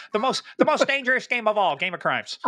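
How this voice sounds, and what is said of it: Imitates another person's voice. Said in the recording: “my Derek Maltz imitation.”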